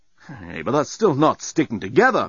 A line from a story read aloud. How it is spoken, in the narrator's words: moaned Dan